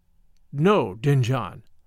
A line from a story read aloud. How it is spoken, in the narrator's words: I answered